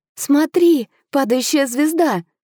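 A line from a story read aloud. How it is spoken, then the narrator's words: Exclamation. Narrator (Russian): воскликнула я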